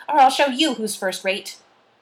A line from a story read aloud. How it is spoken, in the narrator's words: howled Shirley